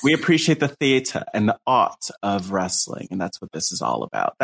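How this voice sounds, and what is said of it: Put-on sophisticated accent. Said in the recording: “That was not a Sarah accent. That was just my sophisticated accent. ... Very sophisticated.”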